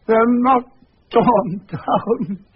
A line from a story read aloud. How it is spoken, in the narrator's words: cried